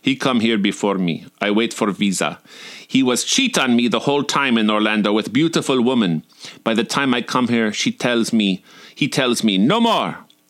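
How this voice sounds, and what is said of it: Put-on Russian accent. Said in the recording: “Ira was from Russia, and forgive my Russian accent”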